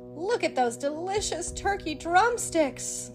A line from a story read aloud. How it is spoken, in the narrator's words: sighed Mickey